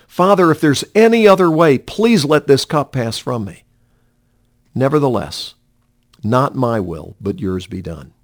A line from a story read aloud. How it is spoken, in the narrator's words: He pleaded with the Father and cried out